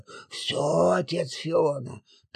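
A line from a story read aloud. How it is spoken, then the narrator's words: Whispered reply. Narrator (Russian): также шепотом ответил Маврикий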